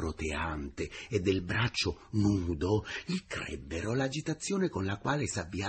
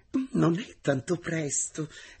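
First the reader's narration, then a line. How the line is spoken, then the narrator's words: Sweet female teacher's voice. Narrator (Italian): rispose con voce dolce la maestra Zibelli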